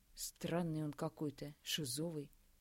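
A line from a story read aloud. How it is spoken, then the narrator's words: Low voice. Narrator (Russian): проговорил Андрей негромко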